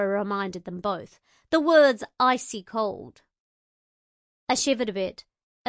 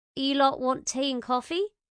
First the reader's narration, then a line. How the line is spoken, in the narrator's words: I asked